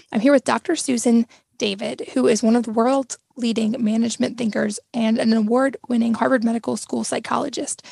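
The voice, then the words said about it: Slightly strained voice. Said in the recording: “excuse my voice being a little strained today ... my voice isn't 100% today”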